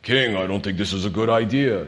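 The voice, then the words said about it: Impression of Joab. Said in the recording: “That's just my impression. I don't know how he sounded.”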